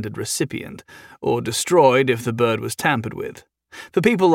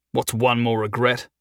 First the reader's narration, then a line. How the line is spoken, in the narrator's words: Jason snarled